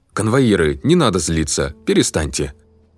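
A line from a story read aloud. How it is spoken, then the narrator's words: Furious shouting. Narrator (Russian): Услышав такие презрительные слова конвоиров я с яростью закричал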